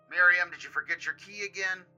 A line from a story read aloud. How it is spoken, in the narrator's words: Otto immediately stood up, though, and yelled